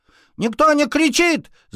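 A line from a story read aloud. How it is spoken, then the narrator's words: Hamster shouting. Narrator (Russian): закричал хомяк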